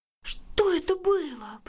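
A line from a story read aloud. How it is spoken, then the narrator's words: Whispered question. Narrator (Russian): почему-то шепотом спросила Крапинка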